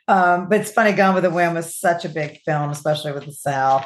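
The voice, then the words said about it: Southern American accent. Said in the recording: “I'm of course from the South, if you can pick up from my accent”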